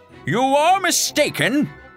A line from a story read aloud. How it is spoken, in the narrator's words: shouted Don Quixote